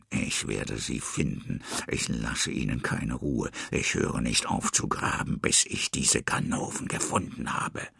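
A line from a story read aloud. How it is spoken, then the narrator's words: Muttering to himself. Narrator (German): brummelt er vor sich hin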